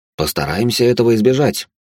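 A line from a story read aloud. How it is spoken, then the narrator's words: Wry snort. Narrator (Russian): хмыкнул я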